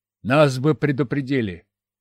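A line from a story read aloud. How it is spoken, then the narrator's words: Skeptical snort. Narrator (Russian): хмыкнул старший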